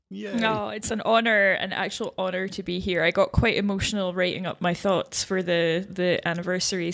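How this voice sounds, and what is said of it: Scottish accent. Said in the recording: “an amazing Scottish accent”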